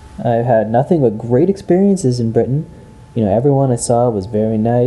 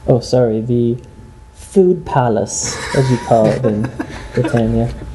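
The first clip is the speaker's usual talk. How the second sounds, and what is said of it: Amateur put-on British accent. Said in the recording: “I said it in an accent too. ... I don't claim to be an expert in the British accent.”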